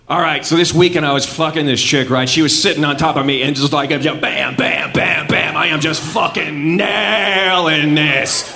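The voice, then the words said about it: Exaggerated douchebaggy accent. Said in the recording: “an extra douchebaggy accent”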